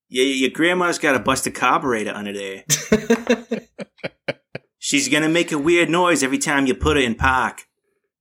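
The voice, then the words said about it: Boston accent. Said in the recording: “nice use of park in the Boston accent”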